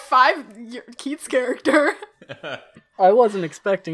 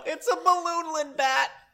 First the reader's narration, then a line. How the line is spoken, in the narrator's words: laugh and yell